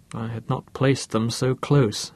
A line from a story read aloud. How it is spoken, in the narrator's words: muttered Bruce